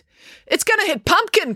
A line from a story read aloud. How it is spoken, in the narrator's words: cried April